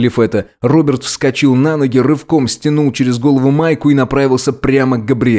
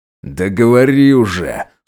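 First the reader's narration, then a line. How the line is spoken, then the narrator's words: Menacing growl. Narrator (Russian): С угрозой в голосе прорычал старший лейтенант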